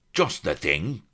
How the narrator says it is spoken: cried the admiral

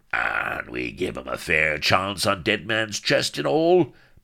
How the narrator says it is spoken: bellowed Firebeard

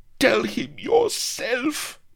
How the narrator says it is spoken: moaned the chamberlain

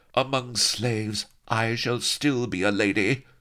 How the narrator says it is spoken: she cried proudly

